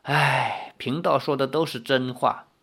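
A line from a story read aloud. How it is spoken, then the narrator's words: Fortune-teller sighing. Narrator (Chinese): 算命仙叹道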